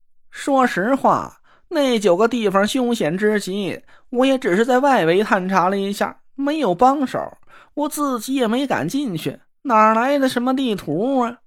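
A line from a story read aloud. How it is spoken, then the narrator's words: Sighing. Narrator (Chinese): 那若兰叹了口气说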